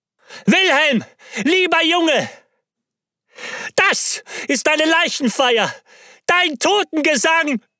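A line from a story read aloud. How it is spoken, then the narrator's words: Screamed loudly. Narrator (German): schrie laut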